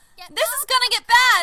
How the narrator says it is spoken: She yelled over the cart alarm

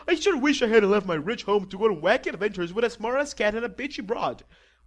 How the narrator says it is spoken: whined James, the girlier

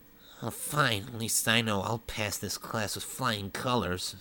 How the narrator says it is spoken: Sonic muttered

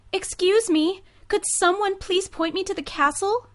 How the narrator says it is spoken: Giselle asked desperately

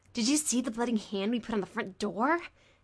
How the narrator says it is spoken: Dick asked eagerly

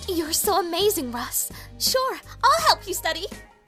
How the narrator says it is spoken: she exclaimed

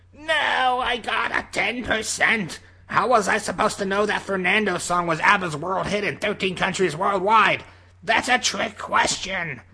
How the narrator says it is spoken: he shouted

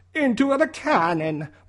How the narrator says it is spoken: Mario shouted

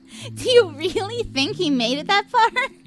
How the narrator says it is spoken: Blair laughed

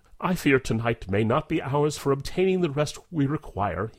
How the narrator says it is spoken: he confesses wearily, laughing without mirth

